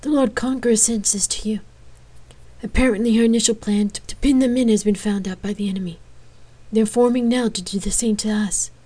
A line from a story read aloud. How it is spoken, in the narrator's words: said in between, gasping for breath